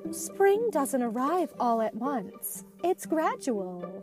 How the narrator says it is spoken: Elsa said gently

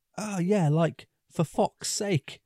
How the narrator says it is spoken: a kid shouts out

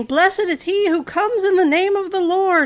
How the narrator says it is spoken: There were people shouting

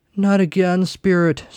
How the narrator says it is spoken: Scrooge groaned

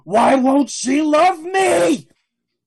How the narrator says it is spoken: Madame Lin roars at you

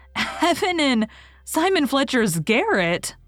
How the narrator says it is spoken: gasped Anne, too amazed even to laugh

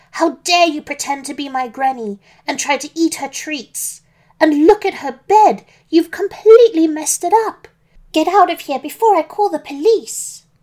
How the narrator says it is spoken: she shouted angrily

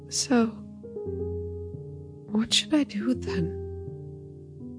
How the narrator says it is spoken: She asked in a small, timid voice

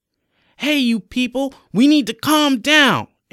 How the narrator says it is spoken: Ares screamed at the top of his lungs

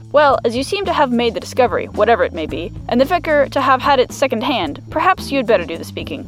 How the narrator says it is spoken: said Holmes

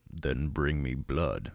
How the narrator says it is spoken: it said

